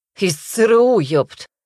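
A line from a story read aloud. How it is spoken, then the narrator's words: Snorting man. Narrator (Russian): хмыкнул мужик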